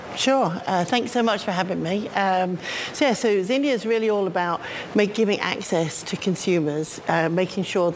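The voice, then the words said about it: British accent. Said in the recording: “nice British accent”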